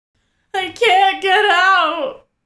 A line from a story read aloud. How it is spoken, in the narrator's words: Amata sobs